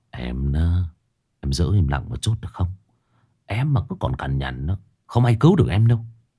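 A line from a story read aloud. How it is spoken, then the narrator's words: Muttering. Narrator (Vietnamese): Kiệt lẩm bẩm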